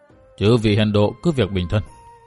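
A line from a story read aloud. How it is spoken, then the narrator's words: Weak soft voice. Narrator (Vietnamese): Lão giọng nói nhỏ nhẹ như củ đổ nho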